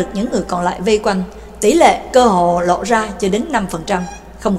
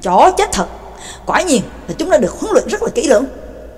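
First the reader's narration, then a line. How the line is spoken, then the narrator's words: Loud cursing. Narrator (Vietnamese): Ngưu Nhị Oa lớn tiếng chửi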